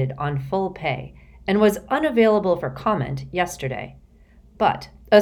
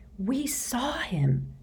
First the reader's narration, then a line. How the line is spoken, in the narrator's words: Hermione whispered